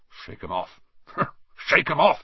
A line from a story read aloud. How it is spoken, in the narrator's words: he would mutter